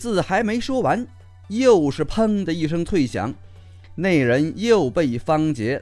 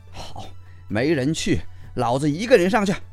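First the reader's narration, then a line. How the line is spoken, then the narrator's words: Through gritted teeth, resolute. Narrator (Chinese): 见没人响应，那人心下一横，咬牙道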